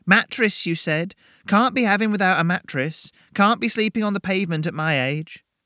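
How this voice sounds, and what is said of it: Strong, matronly woman's voice. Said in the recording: “Her voice was strong, matronly”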